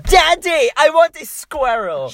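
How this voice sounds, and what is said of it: Imitates bratty British girl accent. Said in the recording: “doing that accent... like, British”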